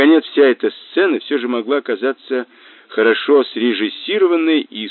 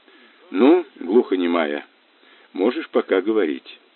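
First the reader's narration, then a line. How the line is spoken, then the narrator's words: Quiet. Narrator (Russian): Тихо сказал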